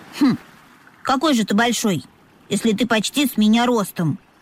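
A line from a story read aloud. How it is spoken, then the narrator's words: Young dolphin snorting. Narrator (Russian): фыркнул дельфиненок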